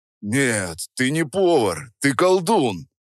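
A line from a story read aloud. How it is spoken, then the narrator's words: Deep rumbling bass. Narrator (Russian): Прогудел он, и его бас заставил задребежать стаканы на полке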